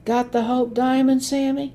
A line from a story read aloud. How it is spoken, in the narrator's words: they'd whistle and shout